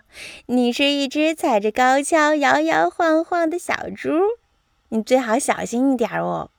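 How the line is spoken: Laughing. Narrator (Chinese): 斑马大笑着说

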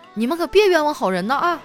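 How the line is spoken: Angry shouting. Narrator (Chinese): 这小偷听完以后也怒了，在走廊底下喊

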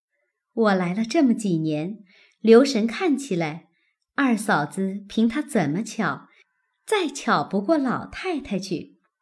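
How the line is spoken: Laughing. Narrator (Chinese): 宝钗一旁笑道

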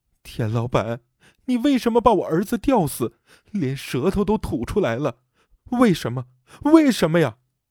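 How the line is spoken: Rising voice. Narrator (Chinese): 她越说声音越大

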